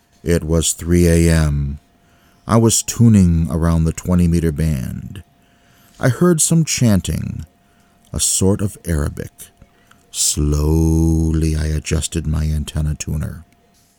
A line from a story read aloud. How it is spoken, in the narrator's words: He says, presumably in a boring monotone